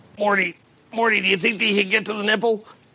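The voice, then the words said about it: Rick Sanchez cartoon character voice. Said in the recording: “do a fucking Rick impersonation ... Give me some Rick Sanchez.”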